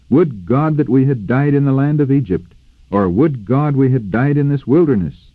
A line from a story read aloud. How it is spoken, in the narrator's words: In bitterness they cried out